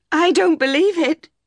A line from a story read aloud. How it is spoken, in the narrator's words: she cried